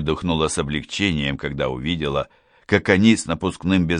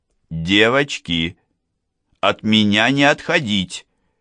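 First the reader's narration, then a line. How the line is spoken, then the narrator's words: Shout. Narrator (Russian): крикнула я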